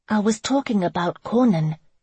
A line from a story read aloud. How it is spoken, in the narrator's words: Megan said with an exasperated sigh